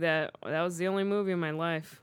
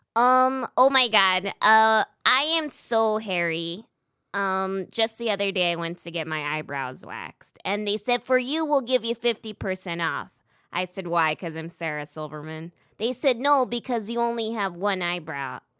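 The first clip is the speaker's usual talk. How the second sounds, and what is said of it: Imitates another person's voice. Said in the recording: “my impression ... You do a good Sarah Silverman ... Do you want to do some Sarah Silverman for our audience?”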